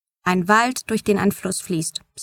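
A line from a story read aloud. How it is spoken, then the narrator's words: Plain. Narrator (German): sagte Dad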